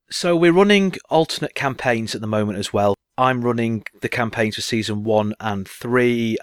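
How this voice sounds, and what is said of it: British accent. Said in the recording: “It's a British one as well, as you might be able to gather from the accent”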